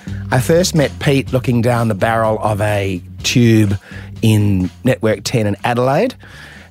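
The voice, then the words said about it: Australian Adelaide accent. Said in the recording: “my Adelaide accent”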